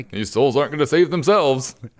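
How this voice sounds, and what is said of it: Impression of Jesus. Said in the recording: “See, that was a much better Jesus, much better, good impression.”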